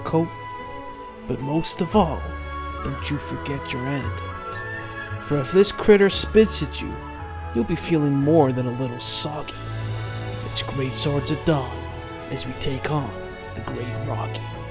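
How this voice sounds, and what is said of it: Put-on American cowboy accent. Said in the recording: “I think you need to work on your cowboy accent. ... I was going for more of a John Wayne slant. It's very different from a Clint Eastwood cowboy, which is more snarly.”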